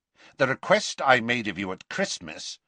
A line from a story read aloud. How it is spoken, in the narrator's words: said Scrimgeour, his voice cold now